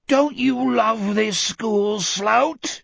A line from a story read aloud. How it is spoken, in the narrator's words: the Etheridge thing bellowed up